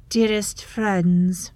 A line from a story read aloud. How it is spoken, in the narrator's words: she calls, her voice like ice on ice